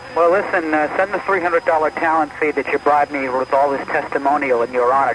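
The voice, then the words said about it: New York accent. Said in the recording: “you still haven't lost your New York accent.”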